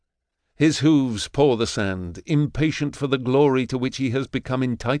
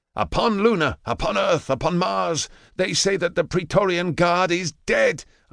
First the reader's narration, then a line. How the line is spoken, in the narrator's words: I shout